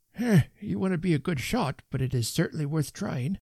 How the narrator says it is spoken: murmured Mr

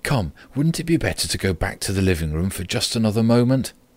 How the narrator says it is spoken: said, although in a trembling voice and too quickly

